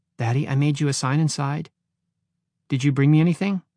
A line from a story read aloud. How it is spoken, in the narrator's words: Jamie smiled sadly